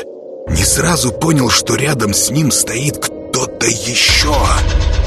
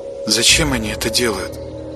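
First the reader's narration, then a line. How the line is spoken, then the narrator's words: Quiet question. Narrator (Russian): тихо спросила она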